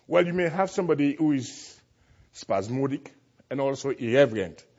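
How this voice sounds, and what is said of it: Strong accent. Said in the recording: “accent is a little bit strong”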